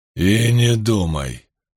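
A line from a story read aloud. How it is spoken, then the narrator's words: Growled. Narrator (Russian): прорычал юноша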